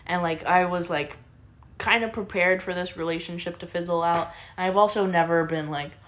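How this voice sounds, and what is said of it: Usual voice. Nothing is said of it.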